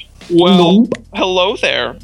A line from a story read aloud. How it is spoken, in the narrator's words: he said nervously